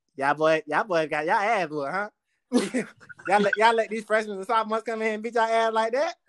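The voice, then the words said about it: Impersonation of a former teammate's speech. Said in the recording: “That's really how he talked too. Like, that's a great impersonation”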